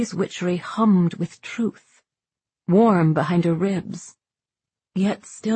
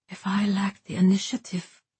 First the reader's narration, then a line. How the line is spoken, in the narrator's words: Safi whispered, the words tumbling out before she could stop them